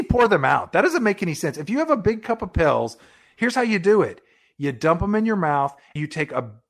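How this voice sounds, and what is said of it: Usual voice. Nothing is said of it.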